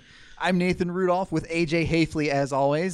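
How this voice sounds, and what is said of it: Raised, loud speaking voice. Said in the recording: “raise my voice so y'all can hear me”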